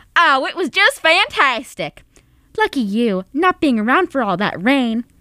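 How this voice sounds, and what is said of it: Put-on country accent. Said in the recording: “the other character, Laura, I'll be doing in a country accent.”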